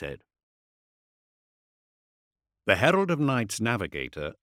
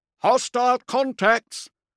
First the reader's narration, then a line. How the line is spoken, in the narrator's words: the master of the Orspex called out